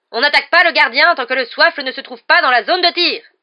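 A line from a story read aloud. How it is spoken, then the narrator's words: Yelled. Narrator (French): hurla-t-elle à l'adresse de Ball et de Derrick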